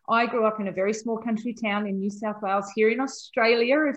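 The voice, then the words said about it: Australian country twang. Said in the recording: “hear the twang in my voice”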